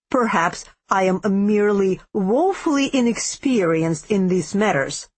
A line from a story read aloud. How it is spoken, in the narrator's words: he said, the tense, sarcastic edge of his voice coming clearly even through the cloak